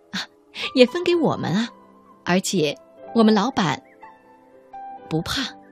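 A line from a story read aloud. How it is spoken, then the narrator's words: Laughing. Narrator (Chinese): 女店员却笑起来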